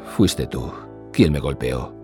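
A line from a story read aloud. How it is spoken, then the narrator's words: Dazed muttering. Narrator (Spanish): masculló con la mirada extraviada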